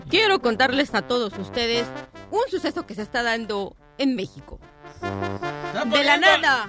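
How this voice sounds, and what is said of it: Exaggerated imitated Mexican accent. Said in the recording (Spanish): “¿Para qué está imitando acento ameri- eh, mexicano si usted ya es mexicana?”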